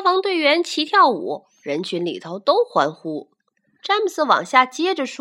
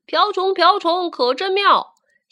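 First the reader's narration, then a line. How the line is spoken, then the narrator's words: Loud shout. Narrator (Chinese): 警察大声叫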